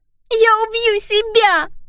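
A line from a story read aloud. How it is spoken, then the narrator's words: Sobbing. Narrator (Russian): рыдала она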